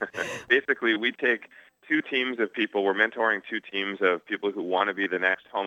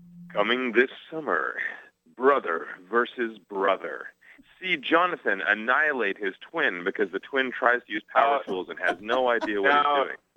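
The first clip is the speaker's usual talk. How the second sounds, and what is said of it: Dramatic movie-trailer announcer voice. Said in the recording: “in my movie voice? ... do your movie voice.”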